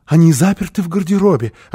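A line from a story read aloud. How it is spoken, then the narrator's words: Explaining with frightened, happy laugh. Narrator (Russian): объяснила Фрёкинбок и засмеялась испуганно и радостно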